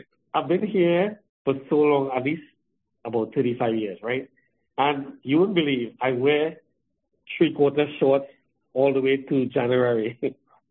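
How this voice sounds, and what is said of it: Trinidadian accent. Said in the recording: “So you come from Trinidad. That explains the accent. ... you don't sound like the typical Canadian people”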